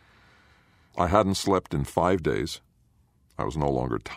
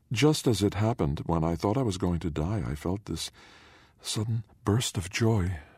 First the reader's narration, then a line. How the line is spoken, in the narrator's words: Jillian whispered